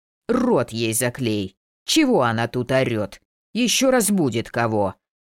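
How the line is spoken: Growling. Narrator (Russian): рыкнул Игоряша

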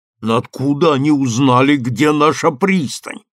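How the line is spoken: Angry growl. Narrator (Russian): прорычал Конго багровее

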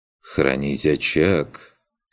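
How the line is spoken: Bored tone. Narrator (Russian): скучающим тоном договорил Курт

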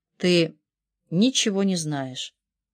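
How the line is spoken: Calmed, quiet. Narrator (Russian): Валерия успокоилась и тихо сказала

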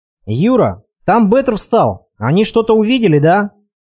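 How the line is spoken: Alarmed shout. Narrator (Russian): Откровенно тревожно заорал Олег

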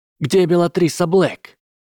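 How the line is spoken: Sharp, unafraid question. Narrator (Russian): Резко спросила Амелия, не показывая страха

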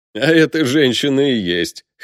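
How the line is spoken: Chuckling. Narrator (Russian): хохотнул Леха

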